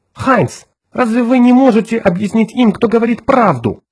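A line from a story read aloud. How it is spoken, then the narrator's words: Agitated. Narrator (Russian): взволнованно сказала Джоан Рэндалл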